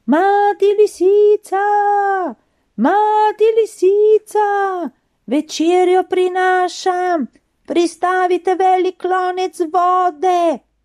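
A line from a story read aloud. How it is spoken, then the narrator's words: Calling from afar. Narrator (Slovenian): je že oddaleč klicala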